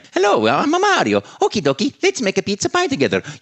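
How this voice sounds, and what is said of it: Italian plumber character voice. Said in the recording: “Italian plumber from Brooklyn ... make up an accent, make up a voice”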